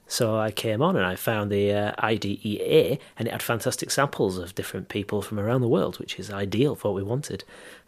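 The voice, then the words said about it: Broad Yorkshire accent. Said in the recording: “This is my accent. I grew up in Yorkshire... Many people have commented on how broad my accent is”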